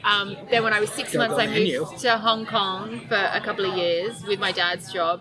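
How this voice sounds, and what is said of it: Mild Australian accent. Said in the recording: “your accent, it seems like a very mild Australian accent to me”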